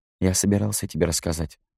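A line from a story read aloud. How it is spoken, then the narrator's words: Muttered. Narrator (Russian): пробормотал Натаниэль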